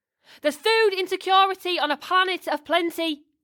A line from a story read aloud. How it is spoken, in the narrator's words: he hollered